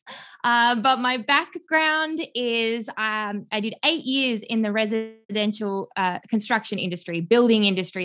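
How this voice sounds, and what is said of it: Australian accent. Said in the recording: “the accent kind of gives it away. I'm not from the US. I'm originally from Melbourne, Australia.”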